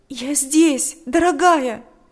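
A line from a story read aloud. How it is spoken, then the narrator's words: Tearful exclamation. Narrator (Russian): воскликнула сквозь слезы Татьяна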